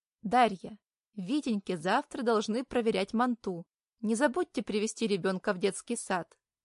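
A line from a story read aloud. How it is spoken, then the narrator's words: Plain. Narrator (Russian): говорит воспитатель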